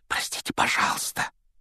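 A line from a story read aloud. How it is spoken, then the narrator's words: Whispered. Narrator (Russian): прошептал Гарри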